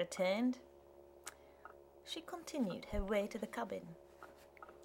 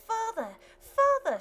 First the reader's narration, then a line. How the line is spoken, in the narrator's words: shrieked Jemima